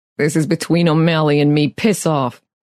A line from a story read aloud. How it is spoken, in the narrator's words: the man growled